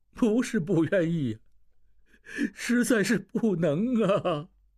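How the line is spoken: Crying. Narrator (Chinese): 摆渡人哭起来

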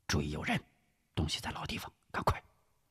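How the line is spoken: Low voice. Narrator (Chinese): 吴石低声说道

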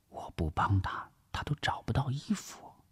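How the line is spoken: Whispering. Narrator (Chinese): 王碧奎悄声的耳语

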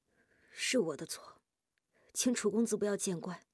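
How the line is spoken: Hesitant soft voice. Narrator (Chinese): 夜莺低着头，咬住下唇许久，才轻声说

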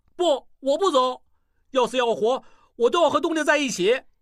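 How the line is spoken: Shouting. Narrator (Chinese): 小栓大叫

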